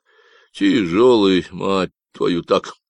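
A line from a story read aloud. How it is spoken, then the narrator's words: Grumbling. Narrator (Russian): проворчал Люк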